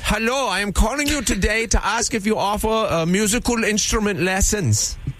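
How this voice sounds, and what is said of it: Put-on Bavarian accent. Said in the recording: “Klaus is back! ... a Bavarian friend ... accent?”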